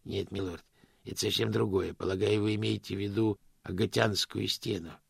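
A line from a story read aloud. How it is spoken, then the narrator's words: Gentle correction. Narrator (Russian): мягко поправил господин Кривс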